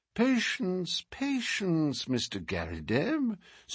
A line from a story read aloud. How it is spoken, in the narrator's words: said my friend in a soothing voice